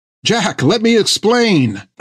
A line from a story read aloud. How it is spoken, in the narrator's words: cried Finn